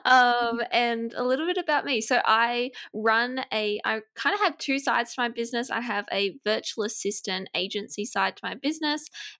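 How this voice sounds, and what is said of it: Australian accent. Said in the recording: “my accent is Australian.”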